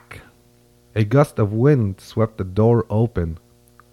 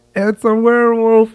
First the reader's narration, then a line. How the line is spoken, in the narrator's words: cried